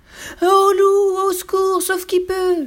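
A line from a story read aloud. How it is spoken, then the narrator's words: Terrified animals screaming. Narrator (French): hurlèrent les animaux terrorisés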